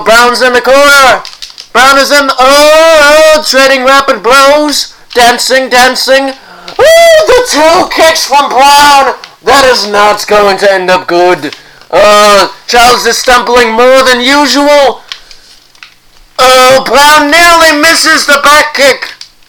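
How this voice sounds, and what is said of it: Sports announcer voice. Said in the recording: “announcer voice done ... continue with the announcer voice”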